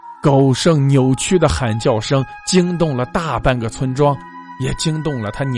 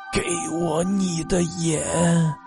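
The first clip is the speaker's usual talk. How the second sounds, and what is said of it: Dry, withered rasping voice. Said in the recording (Chinese): “用干枯的声音说道”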